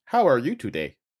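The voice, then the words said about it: Robotic voice. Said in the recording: “Why do you sound like a robot?”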